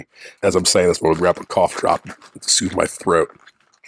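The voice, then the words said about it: Strained, worn-out voice. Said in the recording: “my voice is taking a rest today ... voice is a little shot”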